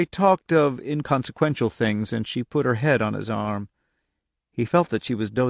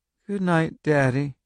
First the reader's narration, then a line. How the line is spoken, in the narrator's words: she said in a thick, sleeping voice